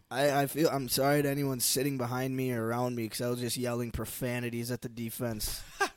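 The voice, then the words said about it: Raspy voice. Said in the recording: “is a little raspy”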